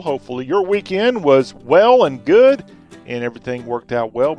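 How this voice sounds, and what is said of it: Southern accent. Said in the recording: “talk with a Southern accent”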